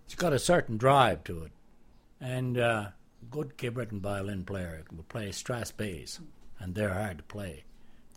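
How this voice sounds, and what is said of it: Lilting Cape Breton accent. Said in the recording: “I love his lilting accent.”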